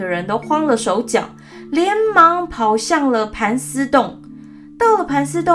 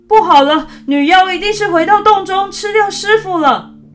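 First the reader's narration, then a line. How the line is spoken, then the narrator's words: Sudden loud alarmed voice. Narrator (Chinese): 悟净突然好像想起什么似的，大声地说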